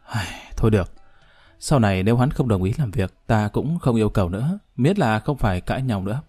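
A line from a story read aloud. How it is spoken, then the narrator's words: Tired, quiet sigh. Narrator (Vietnamese): Nàng cũng cảm thấy có chút mệt mỏi, âm thầm thở dài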